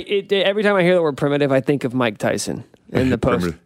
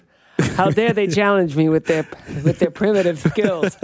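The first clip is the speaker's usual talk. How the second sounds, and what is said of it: Poor Mike Tyson impression. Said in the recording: “That wasn't a very good Tyson impression. ... That wasn't very good.”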